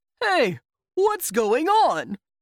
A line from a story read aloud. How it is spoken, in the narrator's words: shouted Roslow